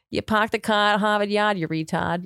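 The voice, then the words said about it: Put-on Boston accent, soft R. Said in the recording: “we use the soft R ... It's like how you get into the Boston accent.”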